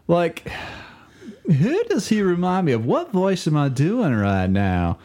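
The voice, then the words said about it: Imitates another person's voice, Southern. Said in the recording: “You're doing like Al Gore, it sounds... It's a little Gore, but like if you put a little like Al Gore with more of some Southern”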